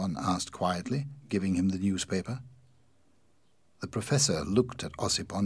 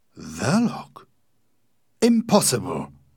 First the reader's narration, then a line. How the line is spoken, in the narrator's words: Ossipon exclaimed